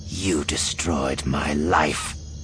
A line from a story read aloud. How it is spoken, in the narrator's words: she snarled